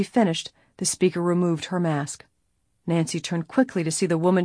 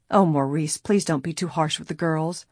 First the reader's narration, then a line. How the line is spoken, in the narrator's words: a timid voice pleaded